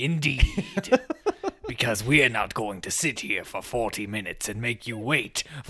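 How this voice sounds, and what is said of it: Usual voice. Nothing is said of it.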